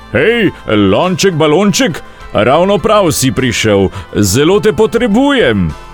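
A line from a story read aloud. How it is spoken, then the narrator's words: Calling out. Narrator (Slovenian): zaklical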